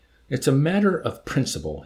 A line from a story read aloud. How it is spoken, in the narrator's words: he exclaimed firmly